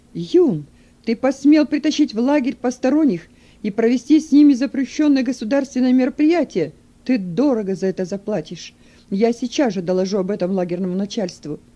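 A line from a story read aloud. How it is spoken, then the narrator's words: Angry shout. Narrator (Russian): он злобно закричал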